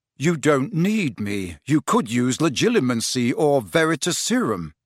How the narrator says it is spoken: said, keeping his voice as respectful as possible

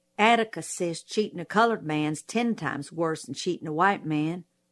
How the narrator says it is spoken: I muttered

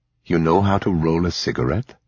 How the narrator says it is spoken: he asked her

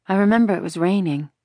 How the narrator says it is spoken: Ellen said sadly

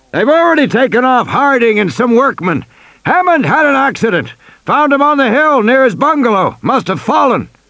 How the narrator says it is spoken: Muldoon shouted

